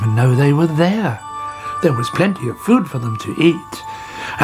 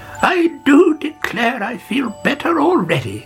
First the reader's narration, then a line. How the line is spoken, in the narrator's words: she cried